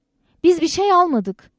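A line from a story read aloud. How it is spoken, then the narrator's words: Shout. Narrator (Turkish): diye bağırdım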